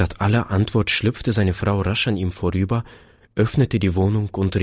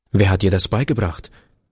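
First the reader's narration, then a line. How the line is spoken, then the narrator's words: Sharp male question. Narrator (German): fragte der Mann scharf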